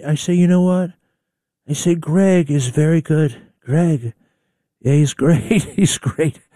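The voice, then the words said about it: Imitates another person's voice. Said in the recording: “Trump impersonators out there. I think I'm pretty good, too, but not really.”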